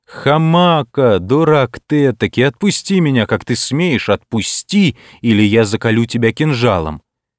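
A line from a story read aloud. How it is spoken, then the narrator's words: Angry half-laughing shout. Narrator (Russian): Пленник сердито, но в то же время полусмеясь закричал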